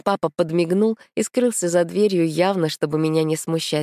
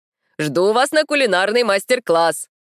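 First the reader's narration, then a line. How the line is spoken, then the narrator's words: Shouting from afar. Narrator (Russian): крикнул из кухни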